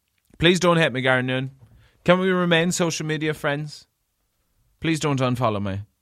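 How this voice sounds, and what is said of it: Usual voice. Nothing is said of it.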